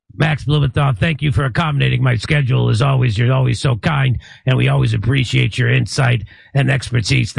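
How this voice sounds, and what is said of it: Gravelly voice, faint Jersey accent. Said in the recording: “you got to work on the Jersey accent a little. You got the gravelly voice down, though.”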